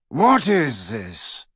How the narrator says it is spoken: The dreadfully familiar, drawling voice of Lucius Malfoy fell on Harry's ears

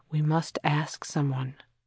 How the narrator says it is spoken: she murmured

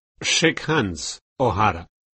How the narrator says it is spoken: he said

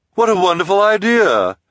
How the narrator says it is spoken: Esme exclaimed, as if the idea had not been hers

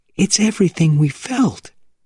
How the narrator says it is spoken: she cried

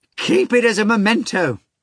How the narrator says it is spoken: Fagot cried

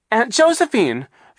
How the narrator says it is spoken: Violet cried

